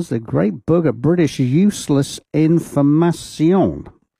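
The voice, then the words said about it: Put-on French accent. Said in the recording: “I say it in a French accent”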